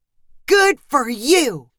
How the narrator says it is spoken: shouted Stu

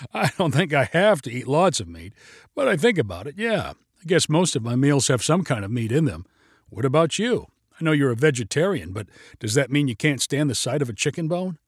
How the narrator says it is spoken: Claire laughed in return

